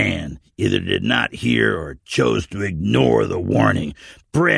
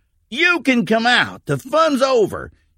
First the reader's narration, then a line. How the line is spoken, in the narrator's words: shouted